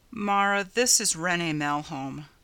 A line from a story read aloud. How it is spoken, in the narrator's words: Ryanson said wearily